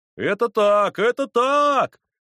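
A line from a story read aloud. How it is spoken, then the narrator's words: Group shouting in unison. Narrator (Russian): закричали в один голос все хлопцы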